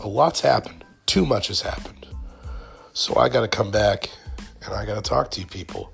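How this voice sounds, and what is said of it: Deeper voice, sounds sick. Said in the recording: “my voice is very central ... it's definitely deeper ... I probably have the flu ... I've been sick ... My voice is a changing”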